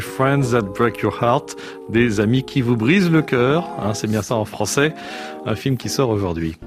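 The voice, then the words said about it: English accent speaking French. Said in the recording (French): “se moquent comme d'habitude de mon accent anglais”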